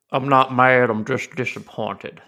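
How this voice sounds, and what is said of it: Ward Burton impression. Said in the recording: “my Ward Burton impression”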